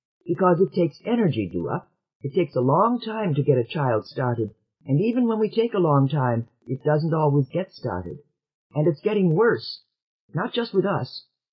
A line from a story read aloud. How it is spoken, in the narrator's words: he added hastily